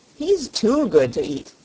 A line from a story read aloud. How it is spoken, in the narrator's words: laughed Chick the Cherub